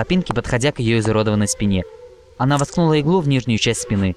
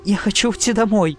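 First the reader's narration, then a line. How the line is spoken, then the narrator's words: Sobbing. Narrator (Russian): прорыдала Дэш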